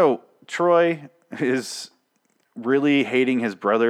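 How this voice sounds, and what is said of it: Usual voice. Nothing is said of it.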